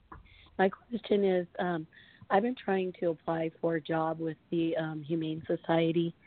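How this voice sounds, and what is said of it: Stuffy, congested voice. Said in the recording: “I have a bit of a cold”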